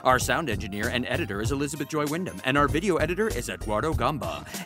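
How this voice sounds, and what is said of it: Formal announcer-style voice. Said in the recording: “that was my announcer voice.”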